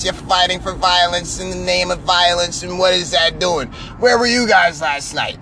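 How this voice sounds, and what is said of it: Imitates another person's voice. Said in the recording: “was that a good Seth impression?”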